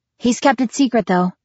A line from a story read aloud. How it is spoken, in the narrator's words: I added hastily